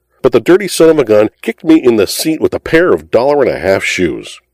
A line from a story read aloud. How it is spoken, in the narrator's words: he indignantly howled to the denizens of Allen Street